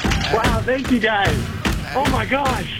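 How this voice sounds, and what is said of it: Excited, enthusiastic speech. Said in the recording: “You sound very excited.”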